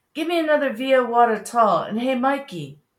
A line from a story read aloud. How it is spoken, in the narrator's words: He barked up